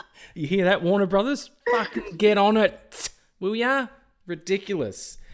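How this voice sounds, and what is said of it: Strong Australian accent. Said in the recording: “I must sound so Australian because my accent's, it gets a little bit crazy sometimes, particularly when I'm tired. Like, it comes through a lot more.”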